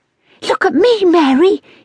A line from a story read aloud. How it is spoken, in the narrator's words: cried excitedly